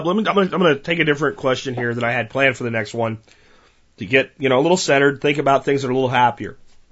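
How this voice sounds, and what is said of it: Strained voice. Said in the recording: “My voice is strained.”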